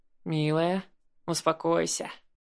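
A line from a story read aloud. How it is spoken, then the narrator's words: Tender. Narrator (Russian): Ласково произнес Гоша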